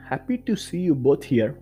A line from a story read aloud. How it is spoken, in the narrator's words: my mom said